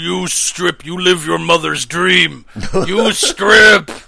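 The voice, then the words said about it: Deep-voiced mother character. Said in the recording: “the mom has such a deep voice”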